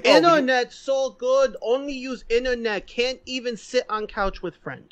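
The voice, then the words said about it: Put-on exaggerated Asian accent. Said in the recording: “the most racist Asian accent I've ever heard in my life”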